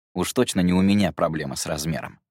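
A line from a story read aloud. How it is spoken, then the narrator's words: Smirking snort. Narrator (Russian): хмыкнул Гидеон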